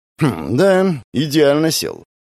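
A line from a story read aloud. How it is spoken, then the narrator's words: Man's grunting remark. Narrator (Russian): хмыкнул мужик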